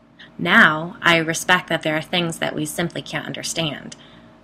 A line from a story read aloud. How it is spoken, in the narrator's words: she replied